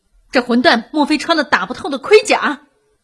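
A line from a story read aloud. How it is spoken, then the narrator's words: Old gunner cursing angrily. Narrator (Chinese): 从未失手的老炮手愤怒的破口大骂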